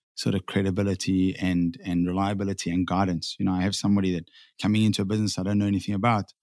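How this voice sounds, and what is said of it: South African accent. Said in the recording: “you said you're from South Africa, if everybody couldn't hear the accent yet”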